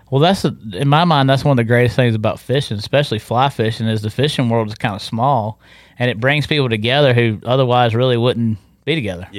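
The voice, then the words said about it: North Carolina Southern accent. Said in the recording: “great and refreshing to talk to a fellow North Carolinian ... to hear the accent”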